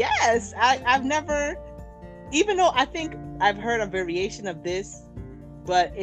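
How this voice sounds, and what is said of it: Usual voice. Nothing is said of it.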